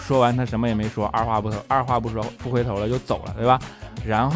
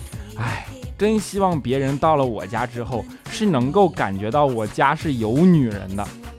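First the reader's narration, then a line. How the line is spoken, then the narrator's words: Sighing. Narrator (Chinese): 叹了口气，跟云姨说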